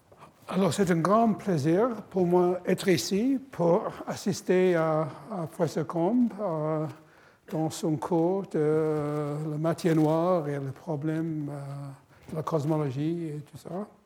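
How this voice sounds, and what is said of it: Non-native French accent, slow speech. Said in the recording (French): “je ne parle pas français très bien. Je vais essayer de parler lentement avec un mauvais accent”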